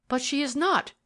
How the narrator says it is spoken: she answered in a passionate voice

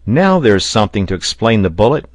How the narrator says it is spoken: exclaimed Pencroft

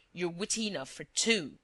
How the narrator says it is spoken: snarled Shears

